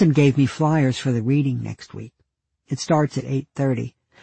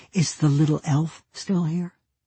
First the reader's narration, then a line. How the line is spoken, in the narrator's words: heard her quietly ask